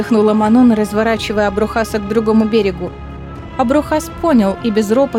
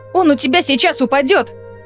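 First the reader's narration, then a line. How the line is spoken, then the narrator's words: Shouted. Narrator (Russian): крикнула Астерина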